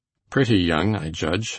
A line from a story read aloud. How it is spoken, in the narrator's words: said dryly